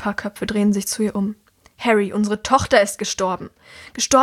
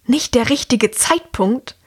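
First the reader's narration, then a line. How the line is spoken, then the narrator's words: Louder hiss, woman. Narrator (German): zischt die Frau jetzt lauter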